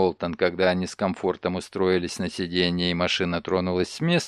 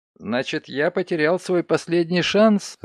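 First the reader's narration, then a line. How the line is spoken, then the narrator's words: Laughing. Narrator (Russian): рассмеялся Ноултон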